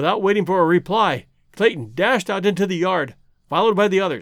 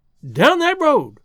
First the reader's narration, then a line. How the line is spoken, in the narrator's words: cried the frightened woman